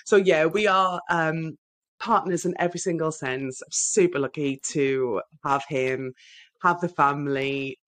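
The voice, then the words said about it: Northeast English Sunderland accent. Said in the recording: “You will hear from my accent, no doubt, that I'm from the northeast of England, from Sunderland”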